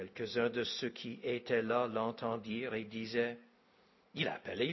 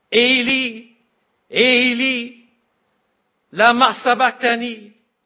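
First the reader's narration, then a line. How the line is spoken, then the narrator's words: Loud cry. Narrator (French): Jésus s'écria d'une voix forte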